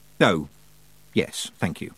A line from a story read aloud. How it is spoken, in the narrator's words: said Tiffany quietly